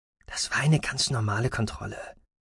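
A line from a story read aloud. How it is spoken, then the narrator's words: Whispered. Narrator (German): flüsterte Roden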